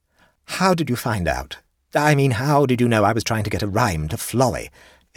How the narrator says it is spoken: asked sharply

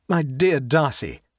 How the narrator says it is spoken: cried Frank

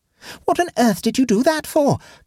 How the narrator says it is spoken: gasped Egbert

